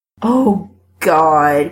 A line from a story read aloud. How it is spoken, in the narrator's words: Chris moans